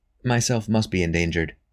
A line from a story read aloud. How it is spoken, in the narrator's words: said Robin softly